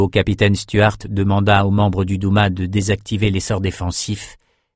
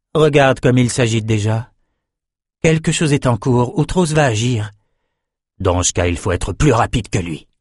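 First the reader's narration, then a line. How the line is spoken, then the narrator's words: Breathed softly. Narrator (French): souffla Nietzsche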